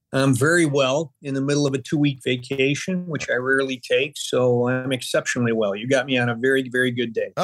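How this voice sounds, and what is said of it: Slight Midwestern twang. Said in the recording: “you have a little bit of a Midwestern twang to your voice”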